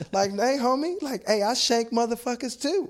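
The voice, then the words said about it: Country accent with hood slang. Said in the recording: “tell you something in a very country accent ... but it'll be like some hood”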